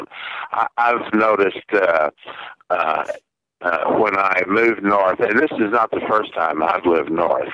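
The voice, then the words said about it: Southern American accent. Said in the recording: “due to my accent, ... a lot of northern prejudice against southern people”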